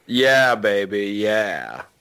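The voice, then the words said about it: Austin Powers character impression. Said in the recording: “I'm going to do an Austin Powers impression”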